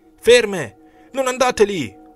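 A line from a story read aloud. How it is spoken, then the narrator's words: Man yelling. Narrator (Italian): urlava l'uomo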